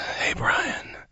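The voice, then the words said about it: Put-on sexy voice. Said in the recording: “This is my sexy voice.”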